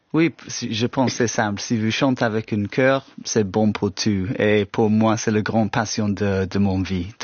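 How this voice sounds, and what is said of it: French with a British accent. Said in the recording (French): “votre français excellent et votre accent so British ... je suis avec un accent un peu British”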